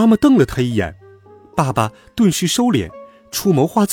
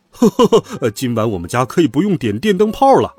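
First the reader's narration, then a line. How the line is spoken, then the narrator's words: Hearty laughter. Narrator (Chinese): 爸爸悠悠然的醒过来，大笑道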